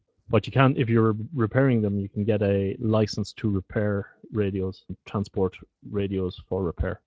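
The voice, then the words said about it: Dutch accent. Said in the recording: “I'm in the Netherlands. Can't you tell from my Dutch accent?”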